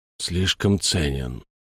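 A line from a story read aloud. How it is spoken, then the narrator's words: Quiet speech. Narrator (Russian): тихо сказал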